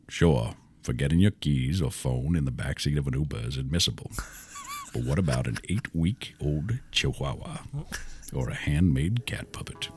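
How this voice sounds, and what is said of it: Bad Morgan Freeman impression. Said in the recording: “we kept doing Morgan Freeman ... it's not even that good. It's like a bad impersonation of Morgan Freeman ... You can tell what I'm doing, but you can't”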